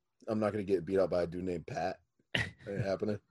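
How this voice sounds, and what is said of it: Funny put-on accent. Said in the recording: “Trying out a funny little accent there.”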